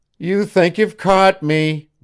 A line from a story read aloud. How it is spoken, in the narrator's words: whined Janet